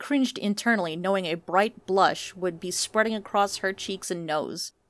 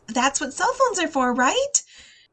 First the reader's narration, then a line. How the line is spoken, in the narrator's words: She added cheerfully